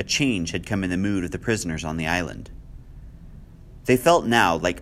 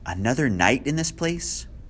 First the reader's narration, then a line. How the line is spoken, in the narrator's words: Vera cried